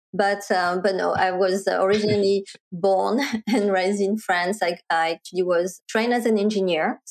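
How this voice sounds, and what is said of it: French accent in English. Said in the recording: “I'm originally French ... why do I still have my accent 22 years later”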